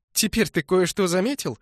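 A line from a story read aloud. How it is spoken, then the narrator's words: Approving laugh. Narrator (Russian): засмеялась она одобрительно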